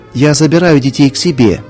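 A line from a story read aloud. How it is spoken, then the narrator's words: Plain. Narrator (Russian): сказала она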